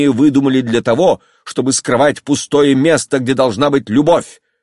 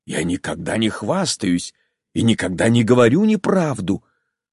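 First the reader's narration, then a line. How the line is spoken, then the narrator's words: Quiet, restrained anger. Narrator (Russian): сказал тихо, удерживая поднимавшийся в нем гнев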